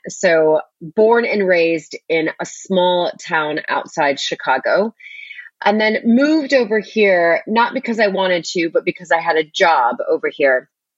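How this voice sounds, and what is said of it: American accent. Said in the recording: “you can tell by my accent that I am American”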